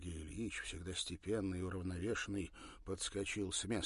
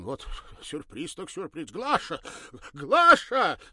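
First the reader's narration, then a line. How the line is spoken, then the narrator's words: Sudden shout. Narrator (Russian): Словно опомнившись, крикнул он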